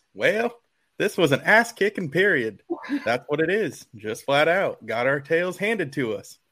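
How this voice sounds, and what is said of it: Imitates another person's voice. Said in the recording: “great Dabo impersonation”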